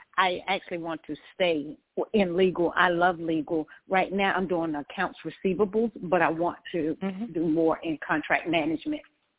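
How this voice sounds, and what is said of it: Strong accent, hard to understand. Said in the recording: “I'm having a problem with your accent.”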